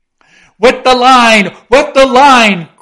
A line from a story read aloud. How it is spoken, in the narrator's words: cried Stubb to the tub oarsman